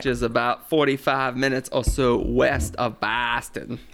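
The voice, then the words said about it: Bad put-on Boston accent. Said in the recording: “What the hell accent was that? ... That was my Boston accent. ... It's Boston accent stinks. ... his accent stinks so bad”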